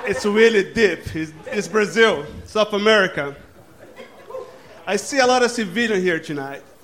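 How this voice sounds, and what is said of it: Brazilian-accented English. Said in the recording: “By my accent, you can tell I'm not from here ... Because I'm Brazilian”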